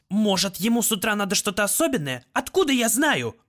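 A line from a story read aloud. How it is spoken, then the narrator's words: Snapping. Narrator (Russian): огрызнулся Лель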